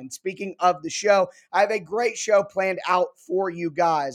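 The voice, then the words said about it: Unwell voice, not up to par. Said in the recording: “my voice is not up to par right now ... I am still on the mend ... hoping it sounds a little bit better”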